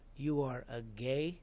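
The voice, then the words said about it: Imitated Mexican-accented English. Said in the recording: “I'm doing an accent, only what his voice sounded like... who was from Mexico, said to me, and English was not his first language”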